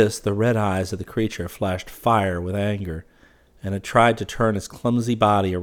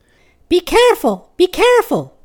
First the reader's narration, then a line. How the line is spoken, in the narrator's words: cried the clear voice again